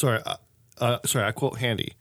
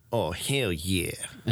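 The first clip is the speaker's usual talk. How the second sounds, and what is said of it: Impression of a friend's voice. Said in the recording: “see if I can do it in his best voice.”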